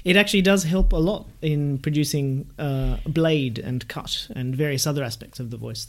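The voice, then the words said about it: Australian accent, somewhat nasal twang. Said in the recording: “the Australian twang that we have... it's approaching nasal, the sort of sound, which as an Antipodean we're very familiar with”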